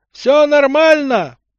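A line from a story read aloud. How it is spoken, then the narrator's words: Shout. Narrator (Russian): прокричал Егор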